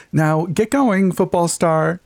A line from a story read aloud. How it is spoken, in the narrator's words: she chirped